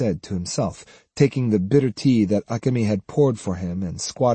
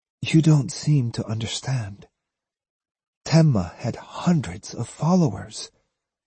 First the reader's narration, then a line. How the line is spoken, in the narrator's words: she said wearily